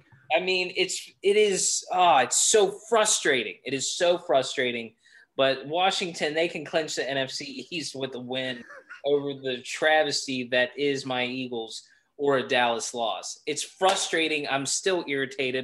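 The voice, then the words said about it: Raised, almost yelling irritated voice. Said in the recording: “raising, as you can see. It's almost like I'm yelling, but I am irritated. ... My voice is raising”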